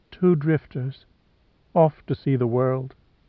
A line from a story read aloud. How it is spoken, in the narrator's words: said in a low whisper